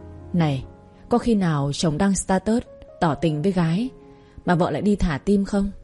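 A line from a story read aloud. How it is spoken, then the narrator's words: Sighing. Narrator (Vietnamese): Thăng thở dài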